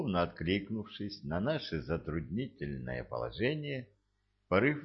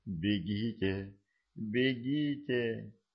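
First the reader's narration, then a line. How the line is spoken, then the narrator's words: Trembling voice. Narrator (Russian): дрожащим голосом проговорил пришелец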